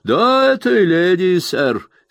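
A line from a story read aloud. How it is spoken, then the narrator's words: Laughing reply. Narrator (Russian): смеясь, ответил мистер Джек Мелдон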